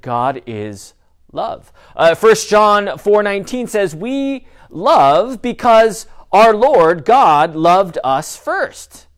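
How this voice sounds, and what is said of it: Loud yelling delivery. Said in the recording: “I don't know why I'm yelling, but that's just what I do.”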